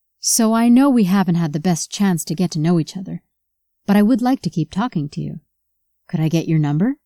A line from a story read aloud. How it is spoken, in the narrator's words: Ryan asked Sydney